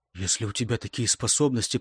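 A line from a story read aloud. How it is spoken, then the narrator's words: Whisper. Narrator (Russian): прошептал Гейб, по-прежнему стараясь не шевелиться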